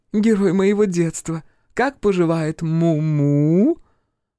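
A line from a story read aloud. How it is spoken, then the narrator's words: Drawling with a hiccup. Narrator (Russian): Лиана протянула последнее слово и не сдержала икоты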